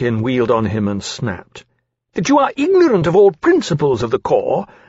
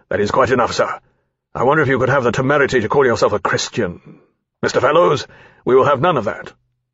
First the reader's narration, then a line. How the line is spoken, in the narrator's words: Lawrence said sharply